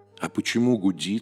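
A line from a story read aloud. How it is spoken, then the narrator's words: Plain. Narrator (Russian): спросил Федя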